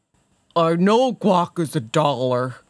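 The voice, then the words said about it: Eeyore-like Sylvester Stallone impression. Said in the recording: “your Sylvester Stallone impression ... my Sylvester Stallone impersonation ... a little like, I don't know, Eeyore-esque”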